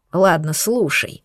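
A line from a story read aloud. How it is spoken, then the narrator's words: Grumbling. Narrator (Russian): пробурчал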